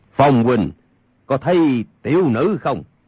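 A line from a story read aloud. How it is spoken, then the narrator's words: Raised voice. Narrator (Vietnamese): cất cao giọng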